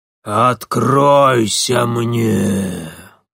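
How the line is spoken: Roaring. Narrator (Russian): проревела она

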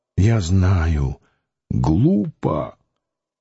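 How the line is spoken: Indistinct mumble. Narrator (Russian): невнятно пробормотал

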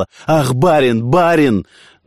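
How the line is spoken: Maid shouting. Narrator (Russian): Служанка кричала

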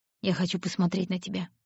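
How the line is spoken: Quiet. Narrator (Russian): тихо сказал он

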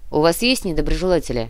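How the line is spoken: Snorting. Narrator (Russian): хмыкнула Яна

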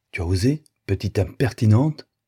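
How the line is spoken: Exclaimed. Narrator (French): s'écria Blanca

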